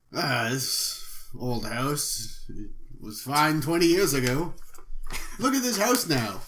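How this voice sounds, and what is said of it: Suddenly put-on accent. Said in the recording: “I like how you suddenly developed an accent.”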